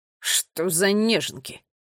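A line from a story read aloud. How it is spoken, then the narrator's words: Disapproving mutter. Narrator (Russian): осуждающе пробормотала Тила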